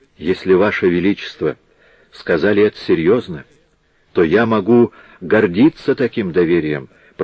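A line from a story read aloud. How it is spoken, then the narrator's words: Whisper. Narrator (Russian): прошептал Франциско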